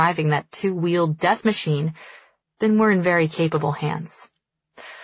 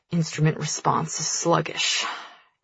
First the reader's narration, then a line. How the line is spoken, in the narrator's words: he mutters in hasty explanation